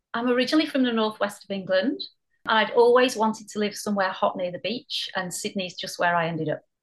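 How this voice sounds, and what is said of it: Mild northwest English accent. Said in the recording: “you don't have an Australian accent ... I'm glad you've kept your accent ... I don't think the accent's as strong as it used to be”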